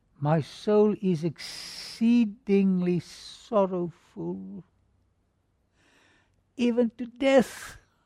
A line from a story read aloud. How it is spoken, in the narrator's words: Then he said to them in a pathetic tone